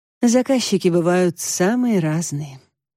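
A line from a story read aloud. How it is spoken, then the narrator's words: Sighing. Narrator (Russian): вздохнула Марго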